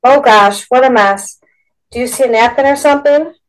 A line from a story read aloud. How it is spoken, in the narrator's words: yelled above the noise